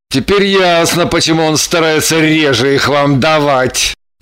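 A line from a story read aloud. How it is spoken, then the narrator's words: Glum realization. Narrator (Russian): Уныло прозрел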